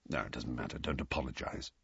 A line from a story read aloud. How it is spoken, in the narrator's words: Sirius mumbled